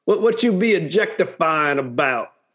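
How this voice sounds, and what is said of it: Exaggerated Southern accent. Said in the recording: “doing a, a crazy Southern accent.”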